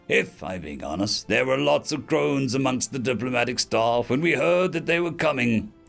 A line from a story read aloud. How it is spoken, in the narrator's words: Zhao chuckled